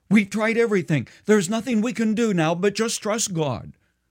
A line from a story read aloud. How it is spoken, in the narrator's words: the wife exclaimed